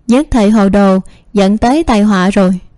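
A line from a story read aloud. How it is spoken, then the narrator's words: Resigned sigh. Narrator (Vietnamese): Vân Lãnh Ca thở dài, bất đắc dĩ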